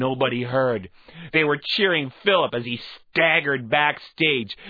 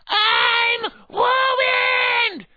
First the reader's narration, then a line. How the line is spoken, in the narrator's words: Glenn and I cackled